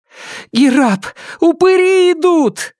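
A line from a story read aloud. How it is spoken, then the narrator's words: Muffled scream. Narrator (Russian): завопила Нелит, прижав окровавленную ладонь ко рту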